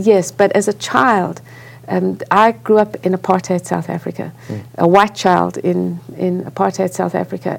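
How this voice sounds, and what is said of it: South African accent. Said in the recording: “I grew up in South Africa. You can hear I have an accent.”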